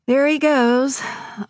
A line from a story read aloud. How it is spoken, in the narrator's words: Uncle George said wistfully